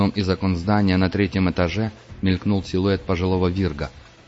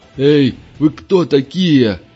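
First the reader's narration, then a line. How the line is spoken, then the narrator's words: Older man shouting. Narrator (Russian): крикнул пожилой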